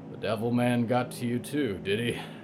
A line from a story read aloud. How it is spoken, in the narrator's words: Rick sighed